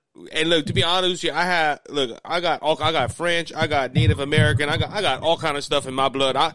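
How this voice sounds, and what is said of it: Southern Cajun accent. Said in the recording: “that Cajun accent in me, I guess you could say, from the South”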